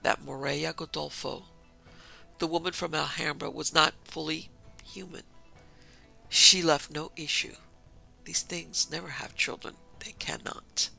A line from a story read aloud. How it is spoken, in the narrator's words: Yamada went on very quietly